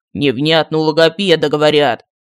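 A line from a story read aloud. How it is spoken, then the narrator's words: Grumbled. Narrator (Russian): проворчал Мар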